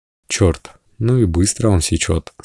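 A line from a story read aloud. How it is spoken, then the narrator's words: Quiet speech. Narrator (Russian): сказал Стин тихо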